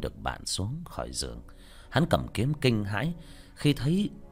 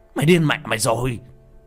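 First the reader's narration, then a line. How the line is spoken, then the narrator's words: Shout. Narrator (Vietnamese): Thằng này hét lên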